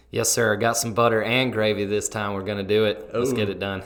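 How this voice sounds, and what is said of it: Southern twang accent. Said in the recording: “with a beautiful Southern twang”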